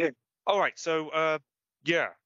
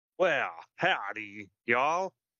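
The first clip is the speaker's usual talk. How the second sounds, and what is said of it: Attempted Southern American accent. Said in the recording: “do you want to do it in a select Southern American accent like I did, John Wayne? ... I'm not too good at maintaining a foreign accent”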